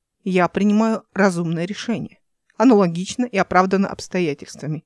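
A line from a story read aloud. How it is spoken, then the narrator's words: Plain. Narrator (Russian): ответил корабль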